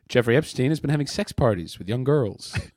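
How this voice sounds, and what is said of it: Put-on American newscaster accent. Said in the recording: “you did your American accent off of the news ... That's my American accent.”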